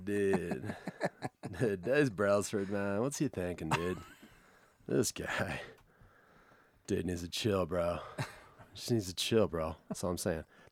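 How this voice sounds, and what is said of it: Laid-back Boulder dude character voice. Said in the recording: “please do Boulder Dude again”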